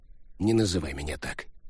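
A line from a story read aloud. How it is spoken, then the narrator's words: Sighing habitual mutter. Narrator (Russian): Фаустов вздохнул, привычно буркнул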